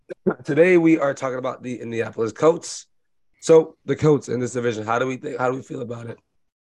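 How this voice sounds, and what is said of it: Sick, strained voice. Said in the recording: “apologize for my voice. I am sick”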